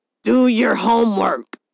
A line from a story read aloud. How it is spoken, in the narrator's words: McNabb the father bellowing back